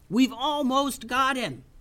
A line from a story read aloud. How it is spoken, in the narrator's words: yelled Tubes over the noise of battle